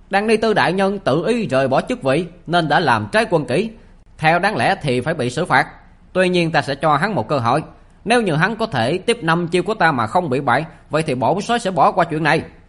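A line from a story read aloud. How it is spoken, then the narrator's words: Loud public address. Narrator (Vietnamese): gã lại lớn tiếng nói cho toàn thể dân chúng được nghe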